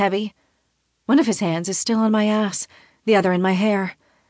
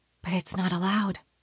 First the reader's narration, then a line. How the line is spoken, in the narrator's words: I whisper